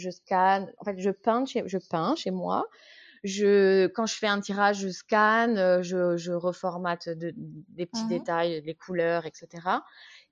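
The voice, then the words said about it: Slight Corsican French accent. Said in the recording (French): “Il y a un petit accent, mais j'arrivais pas à deviner d'où ... Ajaccio ... En Corse”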